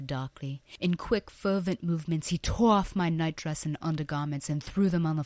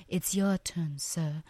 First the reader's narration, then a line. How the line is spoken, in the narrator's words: I whispered quietly and seductively in his ear